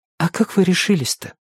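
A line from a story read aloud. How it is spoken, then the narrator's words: Quiet, impatient question. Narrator (Russian): не выдержала и тихо спросила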